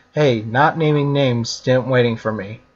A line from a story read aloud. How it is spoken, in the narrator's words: she said